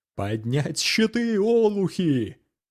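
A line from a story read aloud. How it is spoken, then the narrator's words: Shouted. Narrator (Russian): крикнул Асаф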